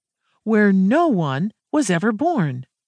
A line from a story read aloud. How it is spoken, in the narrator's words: exclaimed, nearly gleefully